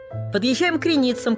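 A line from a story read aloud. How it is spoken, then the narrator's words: Shout from a distance. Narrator (Russian): крикнула почти от двери проводница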